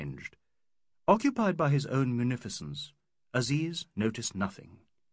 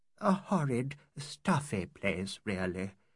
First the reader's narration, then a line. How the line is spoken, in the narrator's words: murmured Mrs